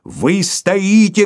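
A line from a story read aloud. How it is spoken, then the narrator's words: Shouting. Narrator (Russian): кричал Филипп Филиппович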